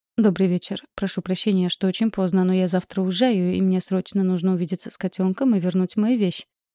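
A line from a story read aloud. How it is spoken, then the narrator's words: Rapid rattling speech. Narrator (Russian): протараторила я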